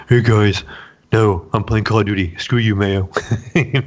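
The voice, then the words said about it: Imitates another person's voice. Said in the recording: “my Jesus, you know, impersonation”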